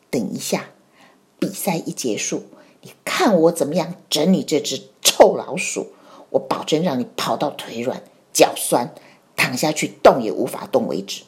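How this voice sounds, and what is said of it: Whispered threatening line. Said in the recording (Chinese): “阿猫在小老鼠的耳朵边小声的说”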